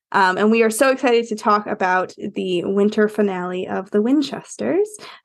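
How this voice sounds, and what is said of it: Sick-sounding voice. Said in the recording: “I had COVID last week. I'm still recovering. So if you hear that in my voice, that is exactly what that is.”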